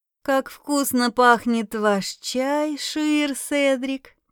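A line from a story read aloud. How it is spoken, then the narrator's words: Drawling. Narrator (Russian): протянула я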